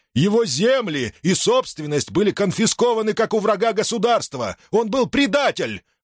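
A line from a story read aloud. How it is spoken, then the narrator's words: Shouting. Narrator (Russian): закричал Антонит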